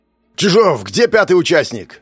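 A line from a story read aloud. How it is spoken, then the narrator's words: Barked. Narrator (Russian): рявкнул Платонов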